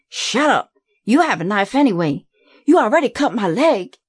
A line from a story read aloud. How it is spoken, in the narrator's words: Billy called out